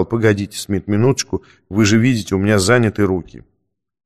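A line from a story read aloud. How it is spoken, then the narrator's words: Muttering. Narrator (Russian): учитель бормотал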